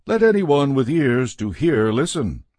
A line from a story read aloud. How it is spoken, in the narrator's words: he called out